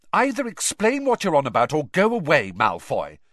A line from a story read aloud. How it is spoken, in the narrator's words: said Hermione testily